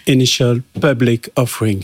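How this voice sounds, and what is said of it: Exaggerated English accent. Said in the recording (French): “Quel accent. Voilà. ... Quel accent incroyable.”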